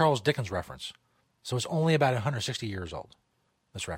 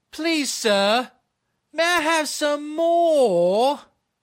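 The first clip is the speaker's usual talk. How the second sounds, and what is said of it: Loud, thick put-on English accent. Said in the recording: “You have to say it very loud in a very thick English accent ... put the accent in the end on more”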